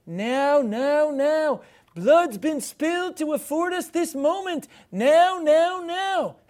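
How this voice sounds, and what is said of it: Imitates another person's voice. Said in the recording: “my imitation is pretty great”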